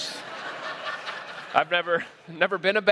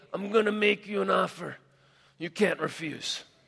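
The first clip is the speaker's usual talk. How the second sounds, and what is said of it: Mob boss impression. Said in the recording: “I'm not great at impersonations. ... bad mob boss”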